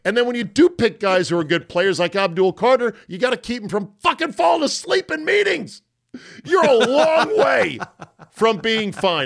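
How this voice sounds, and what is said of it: Yelling, loud angry rant. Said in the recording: “Am I yelling? I'm yelling.”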